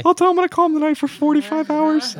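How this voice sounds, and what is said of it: Man putting on a girl voice. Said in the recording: “Do you like my girl voice? I'm a man.”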